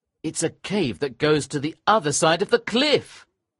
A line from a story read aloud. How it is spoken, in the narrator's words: I cried